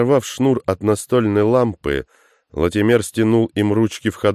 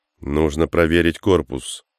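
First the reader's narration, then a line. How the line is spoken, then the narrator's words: Tired. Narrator (Russian): устало произнес Тейнер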